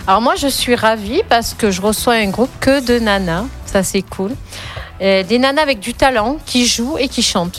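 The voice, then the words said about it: Provençal French accent. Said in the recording (French): “mon accent, il est provençal.”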